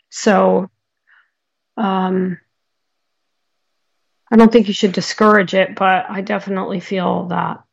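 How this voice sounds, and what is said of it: Slightly hoarse, strained voice. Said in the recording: “You guys can tell my voice is going a little bit today.”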